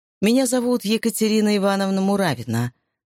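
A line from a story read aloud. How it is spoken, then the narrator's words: Dry reply. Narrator (Russian): сухо ответили ей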